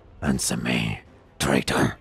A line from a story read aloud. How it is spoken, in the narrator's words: the Raven Lord grunted